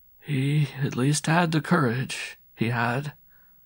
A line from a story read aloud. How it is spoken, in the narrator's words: he shrugged his shoulders, murmuring